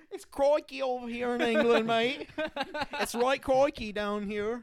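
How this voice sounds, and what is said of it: Put-on Australian accent. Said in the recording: “what if I got good at the accent? ... So if you started talking like this, mate. ... that's Australian. ... That's Australian.”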